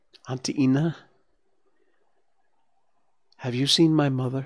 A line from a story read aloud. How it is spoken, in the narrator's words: Bambi asked timidly